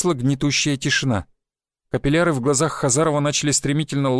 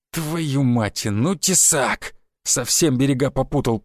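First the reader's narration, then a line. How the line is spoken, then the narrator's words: Hissing. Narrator (Russian): прошипел Хазаров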